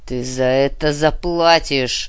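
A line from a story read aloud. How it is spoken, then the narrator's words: Growl. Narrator (Russian): прорычал барон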